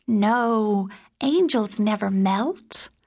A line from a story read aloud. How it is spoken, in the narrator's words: Christopher giggled and said